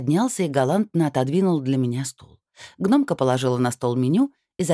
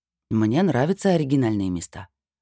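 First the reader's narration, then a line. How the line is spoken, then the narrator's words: Calm. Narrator (Russian): спокойно сказал Эол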